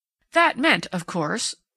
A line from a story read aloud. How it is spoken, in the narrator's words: Sprague took him up eagerly